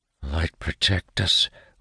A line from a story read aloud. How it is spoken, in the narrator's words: one of the advisers whispers